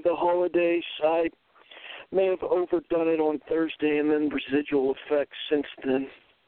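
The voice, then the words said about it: Sick, under-the-weather voice. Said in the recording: “I don't know if you could tell by his voice, but ... seems a little bit under the weather.”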